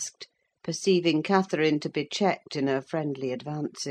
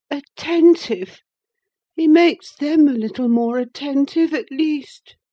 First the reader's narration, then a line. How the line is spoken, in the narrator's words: he cried